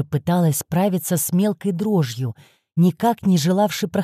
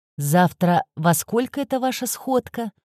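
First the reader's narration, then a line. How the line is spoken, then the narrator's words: Casual everyday tone. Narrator (Russian): будничным тоном спросил напарник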